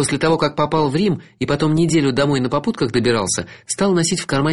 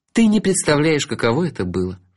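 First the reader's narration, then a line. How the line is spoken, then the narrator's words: Sighing. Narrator (Russian): вздохнула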